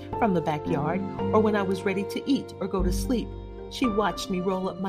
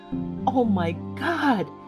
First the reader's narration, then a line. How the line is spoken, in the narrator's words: She gasped